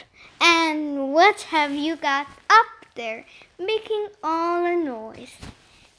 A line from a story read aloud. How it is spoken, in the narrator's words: she asked